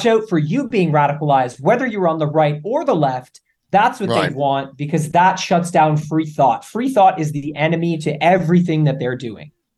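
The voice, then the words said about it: Canadian accent. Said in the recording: “I heard that accent. I said, that man right there is a Canadian.”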